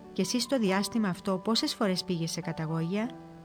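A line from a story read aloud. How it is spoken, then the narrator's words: Calm question. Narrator (Greek): Ο Σιμεών το ρώτησε ήρεμα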